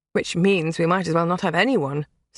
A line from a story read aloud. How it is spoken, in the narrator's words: Sabrina said, her tone bitter